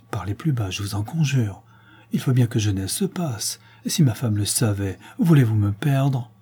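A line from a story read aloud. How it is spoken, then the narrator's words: Pleading tone. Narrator (French): dit Pâtureau d'un ton suppliant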